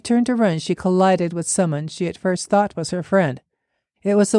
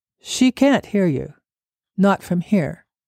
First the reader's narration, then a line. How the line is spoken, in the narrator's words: said the woman calmly